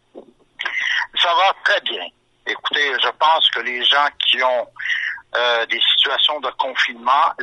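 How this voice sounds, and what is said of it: Québécois French accent. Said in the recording (French): “ton joli accent québécois”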